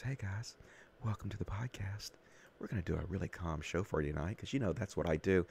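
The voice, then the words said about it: Soft whispery ASMR voice. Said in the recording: “I do my ASMR voice.”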